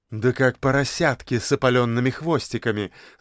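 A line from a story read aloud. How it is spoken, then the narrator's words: Laughing. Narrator (Russian): засмеялась ее поздняя гостья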